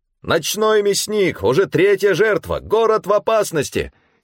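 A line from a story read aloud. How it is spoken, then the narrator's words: Newsboys shouting. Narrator (Russian): кричали разносчики газет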